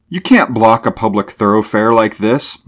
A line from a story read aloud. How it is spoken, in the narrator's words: Mulvaney cried out hotly